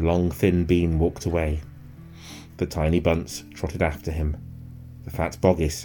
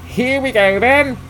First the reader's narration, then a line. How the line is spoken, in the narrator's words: shouted Bean